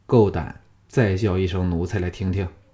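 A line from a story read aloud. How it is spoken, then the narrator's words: Cold. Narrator (Chinese): 项少龙冷冷的说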